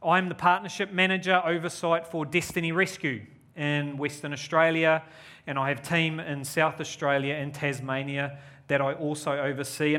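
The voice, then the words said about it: New Zealand accent. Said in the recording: “I'm a Kiwi. You could probably hear my accent.”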